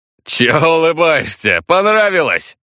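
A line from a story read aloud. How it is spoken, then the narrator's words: Laughing aloud. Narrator (Russian): В голос засмеялся Некор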